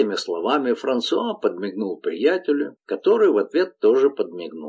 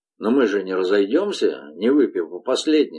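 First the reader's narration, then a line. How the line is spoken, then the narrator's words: Plain. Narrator (Russian): сказал Тибо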